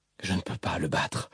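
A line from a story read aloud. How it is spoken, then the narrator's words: Tearful, frustrated murmur. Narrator (French): murmura Aladine, les larmes aux yeux, des larmes de douleur, de frustration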